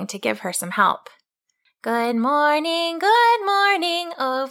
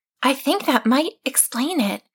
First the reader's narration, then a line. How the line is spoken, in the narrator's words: whispered to herself